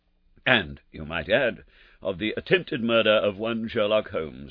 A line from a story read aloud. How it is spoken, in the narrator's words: remarked my friend with a chuckle